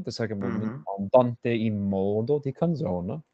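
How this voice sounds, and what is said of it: Put-on Italian accent. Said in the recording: “do you like my Italian accent there?”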